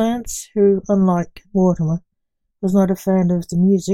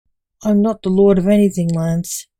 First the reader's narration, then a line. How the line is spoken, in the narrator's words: grumbled Mortimer